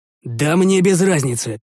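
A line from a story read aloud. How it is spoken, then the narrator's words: Irritated. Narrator (Russian): повел я раздраженно плечами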